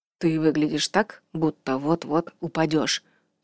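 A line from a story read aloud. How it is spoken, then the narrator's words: Whispered. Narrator (Russian): прошептал Атта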